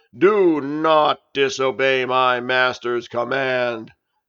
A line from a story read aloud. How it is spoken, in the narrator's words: yelled Janus in the deepest voice he could muster